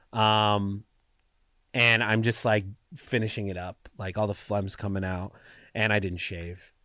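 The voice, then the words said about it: Stuffy, congested voice. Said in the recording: “you can hear in my voice, I'm very stuffy”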